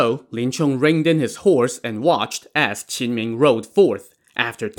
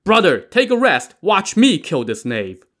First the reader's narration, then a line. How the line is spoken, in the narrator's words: Qin Ming the Fiery Thunderbolt shouted to Lin Chong